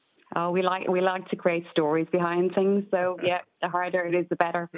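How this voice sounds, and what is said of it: Irish accent. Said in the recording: “a very proud Irish accent.”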